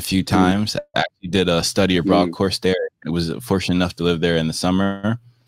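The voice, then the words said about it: American accent. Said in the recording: “the accent just amazes me. I just love how it sounds.”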